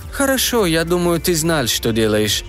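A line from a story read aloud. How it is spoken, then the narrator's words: Tired. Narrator (Russian): устало сказал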